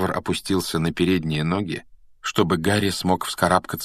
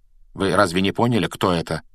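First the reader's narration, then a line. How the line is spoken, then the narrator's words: Calm question. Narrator (Russian): спокойно спросил Флоренс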